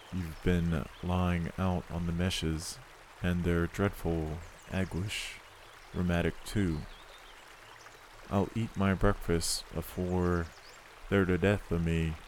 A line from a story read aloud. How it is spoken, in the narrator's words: said he